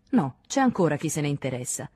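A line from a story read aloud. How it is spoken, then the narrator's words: Plain. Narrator (Italian): disse Henri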